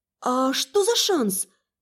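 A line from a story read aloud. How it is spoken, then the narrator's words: Uncertain repeated question. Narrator (Russian): неуверенно переспросила я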